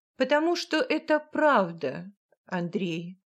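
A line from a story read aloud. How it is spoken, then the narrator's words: Calm mother speaking. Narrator (Russian): спокойно произносит мать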